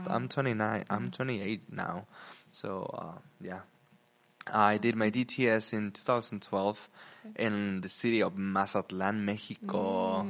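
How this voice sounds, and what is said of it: Mexican-accented English. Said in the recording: “if you can notice my Mexican accent.”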